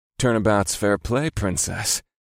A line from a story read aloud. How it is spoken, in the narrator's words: murmured against the side of her neck